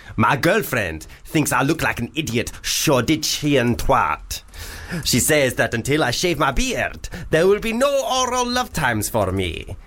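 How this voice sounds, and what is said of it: Put-on pantomime Arabian accent. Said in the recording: “That was an Arabian accent. ... That was perfect. ... that was what they all sounded like in Aladdin ... the Panto ... Arabian ... Panto ... Nights. ... Version.”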